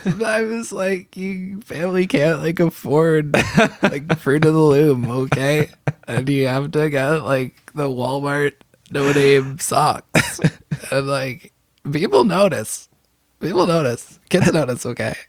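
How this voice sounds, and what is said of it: Sad little boy to elderly woman voice. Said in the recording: “That impression went from sad little boy to sad elderly woman throughout the course of the impression.”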